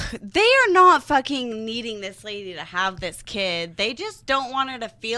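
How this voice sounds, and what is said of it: Usual voice. Nothing is said of it.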